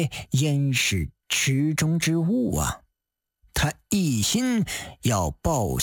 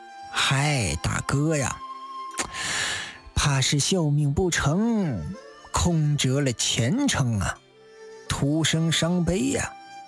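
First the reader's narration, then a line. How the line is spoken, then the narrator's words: Sighing. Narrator (Chinese): 侯军叹道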